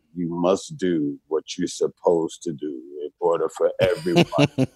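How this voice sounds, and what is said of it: Calm, measured imitation of another person's voice. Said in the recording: “in that calm voice”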